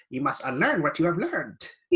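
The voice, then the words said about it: Yoda character voice impression. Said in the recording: “My accent. That was Yoda”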